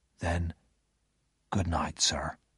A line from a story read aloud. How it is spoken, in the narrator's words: he whispered